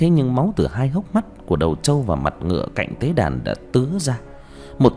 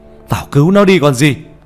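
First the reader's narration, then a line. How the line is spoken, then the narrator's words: Alarmed shout. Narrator (Vietnamese): Nhận ra điều chẳng lành, ông thầy quay lại hét lên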